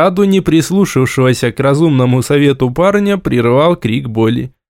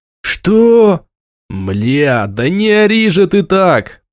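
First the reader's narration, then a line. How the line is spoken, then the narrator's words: Hiss. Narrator (Russian): прошипел я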